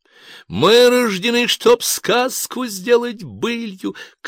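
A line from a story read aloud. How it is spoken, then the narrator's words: Young woman shouting. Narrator (Russian): крикнула девица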